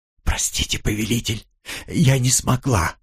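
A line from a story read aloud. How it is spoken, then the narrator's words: Tearful whisper. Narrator (Russian): прошептала Элли, и я увидел в ее глазах слезы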